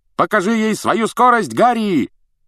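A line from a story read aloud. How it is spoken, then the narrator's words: Shout while flying past. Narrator (Russian): крикнул Фред, пролетая мимо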